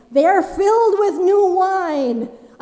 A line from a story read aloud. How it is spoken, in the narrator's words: Someone called out over the bustle and noise to say